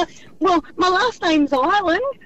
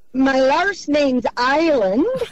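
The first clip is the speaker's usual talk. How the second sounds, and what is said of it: Poor attempt at Irish accent. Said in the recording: “Say it in an accent ... Bad. ... it did sound like it hurt.”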